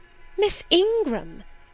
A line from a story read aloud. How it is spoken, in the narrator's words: exclaimed Mrs